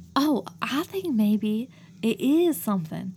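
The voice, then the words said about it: Put-on accent. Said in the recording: “you just really like talking in that accent”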